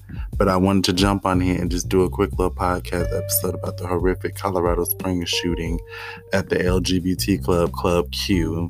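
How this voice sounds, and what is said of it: Strained, tired voice. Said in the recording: “my voice sounds a little strained, it's because I've been talking all day and I'm also tired”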